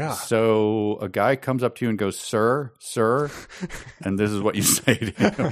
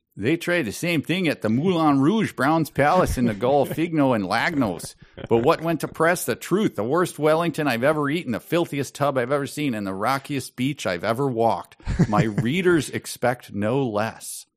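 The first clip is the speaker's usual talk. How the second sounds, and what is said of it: Put-on Canadian accent. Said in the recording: “maybe my Canadian accent”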